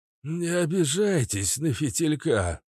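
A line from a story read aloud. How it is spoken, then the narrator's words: Hoarse. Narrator (Russian): сказал охрипшим голосом принц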